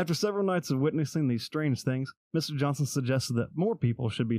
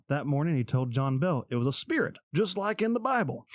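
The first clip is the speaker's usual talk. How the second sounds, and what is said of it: Weak put-on southern accent. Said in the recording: “You gotta up the southern accent for that.”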